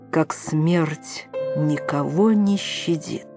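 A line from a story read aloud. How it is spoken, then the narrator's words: Slow, distinct speech. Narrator (Russian): медленно и отчетливо сказала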